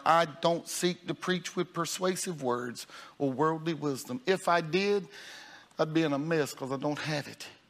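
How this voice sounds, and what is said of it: Rural country dialect. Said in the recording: “I'm a country boy from Union Chapel. You've heard my dialect. You've heard my tone. ... I'd still sound like a hick.”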